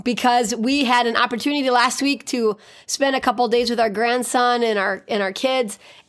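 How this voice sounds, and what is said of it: Deeper voice from a cold. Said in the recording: “you sound a little bit strange ... my voice is a little bit deeper today ... they had a cold ... shared his cold with me”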